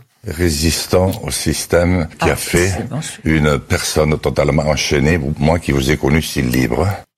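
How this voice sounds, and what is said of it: Strong Béarn accent, deep voice. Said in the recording (French): “L'accent du Béarn. ... avec un accent inimitable, cette voix qui vient du fond”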